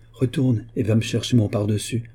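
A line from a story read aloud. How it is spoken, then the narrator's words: Plain. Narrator (French): dit-il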